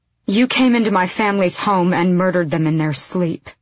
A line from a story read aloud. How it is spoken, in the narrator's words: Aelin said